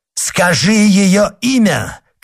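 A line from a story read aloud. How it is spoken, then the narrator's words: Shouting. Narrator (Russian): крикнул монах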